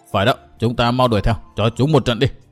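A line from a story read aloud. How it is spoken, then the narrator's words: Loud shout. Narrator (Vietnamese): Trấn Thiên quát lớn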